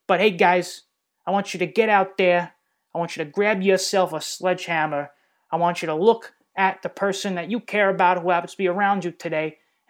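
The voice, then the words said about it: Put-on Brooklyn accent. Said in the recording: “slip into my, you know, Jamesy boy from Bensonhurst, Brooklyn accent”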